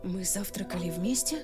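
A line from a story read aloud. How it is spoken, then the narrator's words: Mutter. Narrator (Russian): пробормотала я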